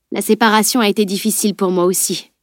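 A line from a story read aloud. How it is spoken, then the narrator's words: Plain. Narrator (French): répondit-il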